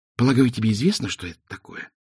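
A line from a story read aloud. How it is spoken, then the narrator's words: Whisper in ear. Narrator (Russian): прошептал ему на ушко Два цветок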